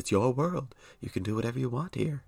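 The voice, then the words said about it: Bob Ross impression. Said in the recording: “I need to work on my Bob Ross impression.”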